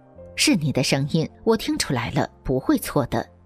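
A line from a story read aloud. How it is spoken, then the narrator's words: Smiling. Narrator (Chinese): 他笑着说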